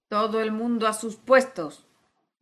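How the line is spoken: Thunderous roar. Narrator (Spanish): rugió la reina con voz de trueno

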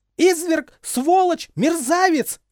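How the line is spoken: Frenzied screaming. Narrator (Russian): кричала она в исступлении

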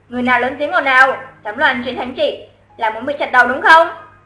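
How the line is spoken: Hasty official question. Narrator (Vietnamese): Quan trông coi cổng thành vội hỏi

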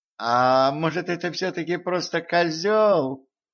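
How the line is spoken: Timid question, prince. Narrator (Russian): робко спросил принц

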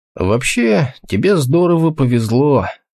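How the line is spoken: Sleepy voice. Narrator (Russian): сонным голосом сказал Толгрим

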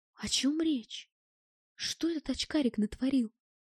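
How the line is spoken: Quiet whisper. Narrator (Russian): Негромко, чтобы не услышала дамочка, шепнул я

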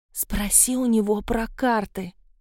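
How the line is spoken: Whispered request. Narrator (Russian): шепотом попросила Марго

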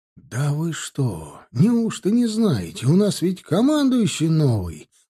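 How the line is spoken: Excited exclamation. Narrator (Russian): воскликнул тот возбужденно

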